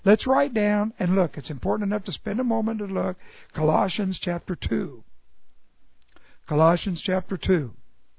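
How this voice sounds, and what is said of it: Hoarse voice. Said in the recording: “something new for my throat so that this hoarseness will go away”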